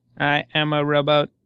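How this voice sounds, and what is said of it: Robot voice. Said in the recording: “I said it in a robot voice”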